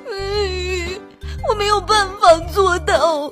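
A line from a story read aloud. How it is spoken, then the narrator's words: Tearful. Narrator (Chinese): 哭鼻子说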